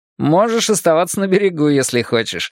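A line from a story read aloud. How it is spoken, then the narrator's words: Mocking reply. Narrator (Russian): насмешливо откликнулся Роланд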